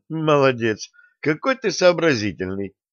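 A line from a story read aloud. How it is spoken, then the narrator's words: Snort. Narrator (Russian): Максим хмыкнул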